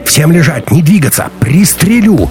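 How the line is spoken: Hysterical shout. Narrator (Russian): истерично выкрикнул Горбоносый

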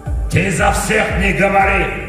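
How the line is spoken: Dwarf barking. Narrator (Russian): рявкнул дварф

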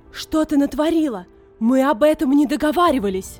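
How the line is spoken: Shouting. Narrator (Russian): закричала

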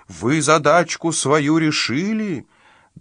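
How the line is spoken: Shouted. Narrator (Russian): родители закричали им

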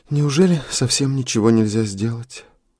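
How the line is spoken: Sigh. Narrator (Russian): вздохнула Эрика

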